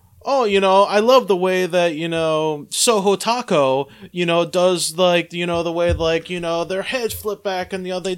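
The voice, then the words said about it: Put-on Japanese accent. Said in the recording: “Is that your Japanese accent? ... I just loved your rendition of a Japanese accent. It was great.”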